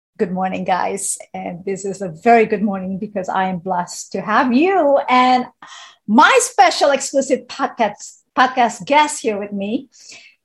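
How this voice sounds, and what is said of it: Excited, energetic speaking. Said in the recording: “I'm super excited, as you can feel and hear it from my voice”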